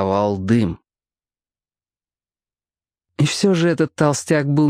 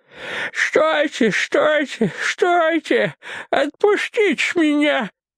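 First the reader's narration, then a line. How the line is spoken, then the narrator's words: Lisping through bloodied lips. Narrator (Russian): Прошепелявил он окровавленными губами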